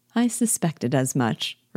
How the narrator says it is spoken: replied Elizabeth

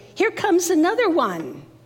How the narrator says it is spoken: he shouted

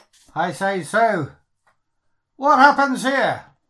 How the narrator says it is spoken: I shout forward to them

